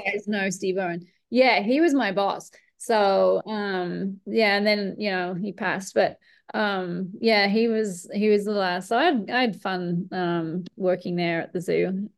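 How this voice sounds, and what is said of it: Mixed Australian, British and American accent. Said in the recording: “the accent does sound like both when you talk yeah like, it's my a little I British ... Oh my god, you sound American ... people think I sound Australian, and when I'm in Australia, they think I sound British ... I can kind of hear a mix. So we don't think you sound American.”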